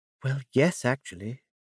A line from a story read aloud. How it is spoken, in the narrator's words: Miss Beaumont said in a confiding tone